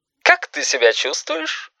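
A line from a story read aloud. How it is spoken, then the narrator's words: Cheerful doctor-like voice. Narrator (Russian): спросил веселым голосом доктора Айболита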